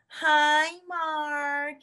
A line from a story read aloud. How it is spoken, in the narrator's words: My friends would all yell